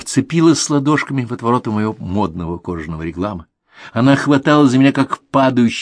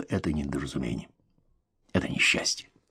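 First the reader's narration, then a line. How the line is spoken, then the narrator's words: Barely audible whisper. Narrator (Russian): еле слышно шепнул ей на ухо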